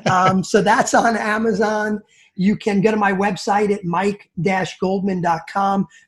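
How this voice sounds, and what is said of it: New York / New Jersey accent. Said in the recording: “my New York, New Jersey accent”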